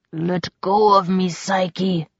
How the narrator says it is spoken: Julian growled

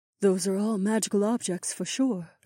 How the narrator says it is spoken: Aliona murmured

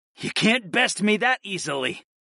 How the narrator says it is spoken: growled

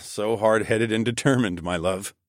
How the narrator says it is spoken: I chuckled

